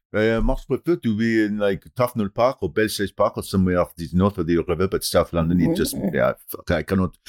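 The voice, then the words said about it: English with a put-on French accent. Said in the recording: “That's a very good impression ... English in a French accent”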